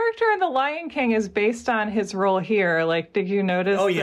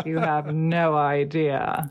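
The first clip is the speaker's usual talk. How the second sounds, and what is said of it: Good impression of cartoon villain voice. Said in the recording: “That was a really good Scar impression.”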